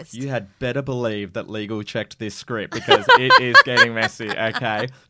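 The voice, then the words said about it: Tabloid TV current-affairs presenter voice. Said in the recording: “best A Current Affair impersonation”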